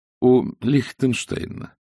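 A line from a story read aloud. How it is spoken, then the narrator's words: Calm answer. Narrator (Russian): ответил Люс спокойно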